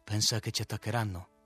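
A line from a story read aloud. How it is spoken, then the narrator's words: Confidential question. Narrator (Italian): domandò il direttore in tono confidenziale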